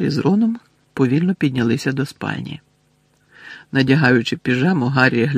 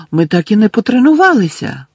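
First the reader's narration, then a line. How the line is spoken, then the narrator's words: Astonished exclamation. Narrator (Ukrainian): вражено вигукнула вона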